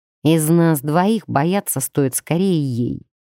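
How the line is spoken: Gloomy. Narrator (Russian): мрачно проговорил Даркан

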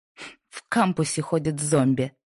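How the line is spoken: Contemptuous snort. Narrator (Russian): фыркнула Лайза, с едва скрытым презрением

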